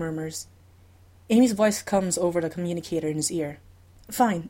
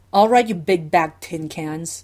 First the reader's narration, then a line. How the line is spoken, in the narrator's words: the Doctor growls